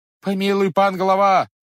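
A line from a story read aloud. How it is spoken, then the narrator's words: Several voices shouting. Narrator (Russian): закричали некоторые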